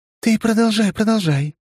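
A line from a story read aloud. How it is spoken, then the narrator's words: Cooing. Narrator (Russian): проворковала она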